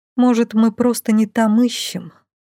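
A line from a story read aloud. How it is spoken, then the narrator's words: Muttered. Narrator (Russian): пробормотала я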